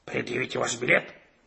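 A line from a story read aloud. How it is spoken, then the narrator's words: Angry bark. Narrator (Russian): сердито рявкнул он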